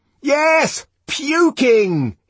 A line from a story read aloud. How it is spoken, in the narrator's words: fairly shouted